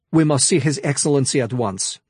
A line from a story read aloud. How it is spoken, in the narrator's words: Nahala snapped